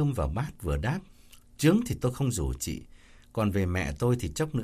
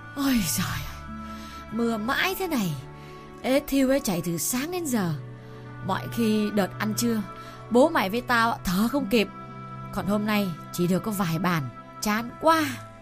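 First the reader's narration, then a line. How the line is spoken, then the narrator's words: Panting, complaining. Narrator (Vietnamese): Cầu thang khá cao làm bà vừa thở hổn hển vừa than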